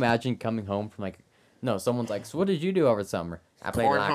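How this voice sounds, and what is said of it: Usual voice. Nothing is said of it.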